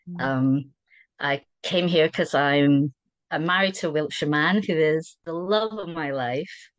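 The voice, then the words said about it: Scottish accent. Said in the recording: “you might be able to tell from the accent, I'm Scottish.”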